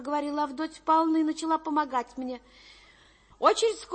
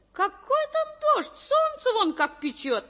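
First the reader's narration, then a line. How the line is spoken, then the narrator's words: Cheerful. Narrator (Russian): весело ответила Авдотья Павловна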